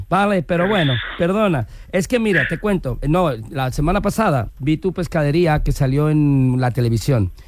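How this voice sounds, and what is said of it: Put-on Galician Spanish accent. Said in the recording (Spanish): “pon acento galego ... ya se me siente el acento gallego”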